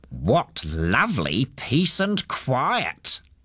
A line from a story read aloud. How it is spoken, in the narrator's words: he said in a cross voice